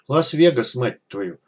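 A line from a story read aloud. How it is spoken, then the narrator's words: Stunned, through gritted teeth. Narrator (Russian): процедил сквозь зубы, пораженный виденным док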